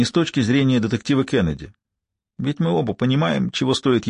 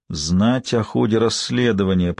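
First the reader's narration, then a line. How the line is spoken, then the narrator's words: Drawled. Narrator (Russian): протянул он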